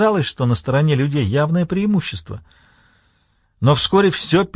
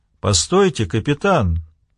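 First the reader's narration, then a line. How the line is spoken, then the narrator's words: Metallic voice. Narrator (Russian): произнес он своим металлическим голосом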